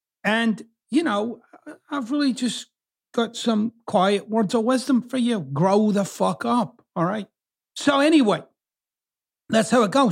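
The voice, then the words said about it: Mixed Scottish and American accent. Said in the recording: “I've kind of got two accents. I'm originally from Scotland, but I've lived here in the US for 27 years”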